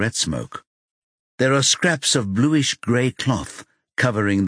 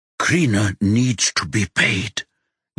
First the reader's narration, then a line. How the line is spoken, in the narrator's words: Yuna hisses